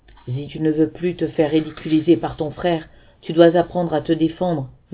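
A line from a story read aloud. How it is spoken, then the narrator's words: Murmuring. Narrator (French): murmura-t-il enfin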